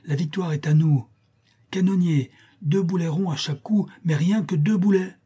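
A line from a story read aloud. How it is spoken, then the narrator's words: Exclaiming. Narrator (French): s'écrie-t-il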